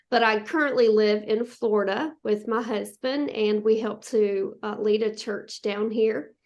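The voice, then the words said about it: Southern American accent. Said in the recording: “I was born and raised in the mountains of South Carolina, and so that's where you're hearing that Southern accent from”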